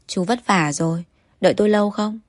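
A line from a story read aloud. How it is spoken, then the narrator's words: Gentle, smiling. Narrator (Vietnamese): Anh mỉm cười với tài xế, dịu dàng nói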